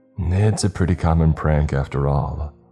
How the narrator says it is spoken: the younger cop sighed

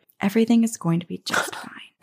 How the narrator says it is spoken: whispered

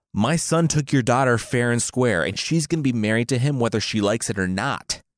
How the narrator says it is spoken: the king yelled, as an opener

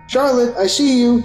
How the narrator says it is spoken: I yelled

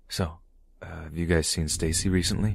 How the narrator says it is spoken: I said to my cousins in a slightly hushed voice

